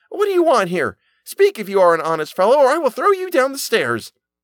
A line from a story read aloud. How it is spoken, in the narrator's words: The boy shouted a second time